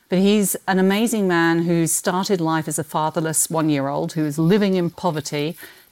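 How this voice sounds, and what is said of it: Non-local foreign accent. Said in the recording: “As you can tell by my accent, I didn't grow up here”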